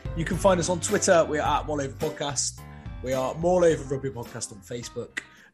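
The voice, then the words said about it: West Country English accent. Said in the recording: “with a West Country accent”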